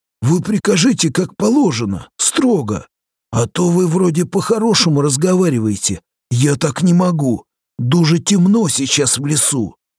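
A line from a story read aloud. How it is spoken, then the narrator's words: Pleading. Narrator (Russian): взмолился Попеленко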